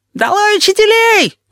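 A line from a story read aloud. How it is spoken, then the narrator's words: Shrieking. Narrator (Russian): визжал Плакса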